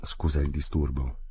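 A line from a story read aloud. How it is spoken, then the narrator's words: Plain. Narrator (Italian): disse Fridolin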